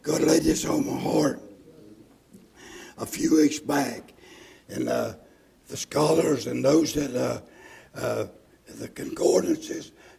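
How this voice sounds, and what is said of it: Weak, strained, partly lost voice. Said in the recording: “I'd apologize for my voice, ... I got half a voice, as good as I need.”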